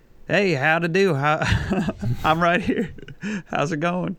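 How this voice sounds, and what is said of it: Put-on Southern accent. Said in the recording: “southern accent. My friend often spoke in a southern accent ... talking in an accent”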